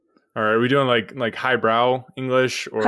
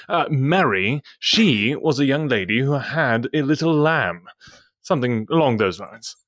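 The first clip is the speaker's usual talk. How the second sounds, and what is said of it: Put-on English accent. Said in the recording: “You say it to me in your best English accent ... Mary had a little lamb in your best accent?”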